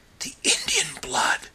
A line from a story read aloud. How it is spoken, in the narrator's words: whispered John Silence